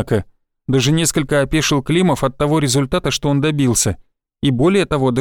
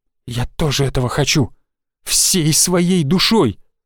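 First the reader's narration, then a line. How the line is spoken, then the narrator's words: Open growl. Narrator (Russian): Уже откровенно прорычала она ему в лицо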